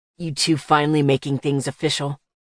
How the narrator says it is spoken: His already deep voice turned into a growl

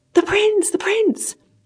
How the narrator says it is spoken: cried the man

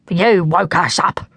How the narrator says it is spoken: growled the old man

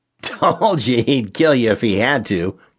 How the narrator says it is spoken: Kevin laughed

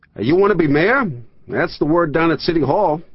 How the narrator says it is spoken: shouted Newsday's Lenny Levitt

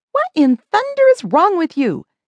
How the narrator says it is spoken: yelled Bev, trying to fend off the blows

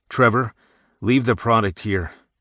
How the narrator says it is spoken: Jason said in a dry tone

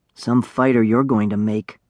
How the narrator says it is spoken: he whispered

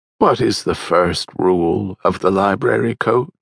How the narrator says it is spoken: Coogan faltered

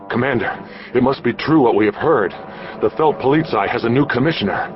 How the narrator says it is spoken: a gasping voice said

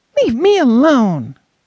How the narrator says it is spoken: shouted

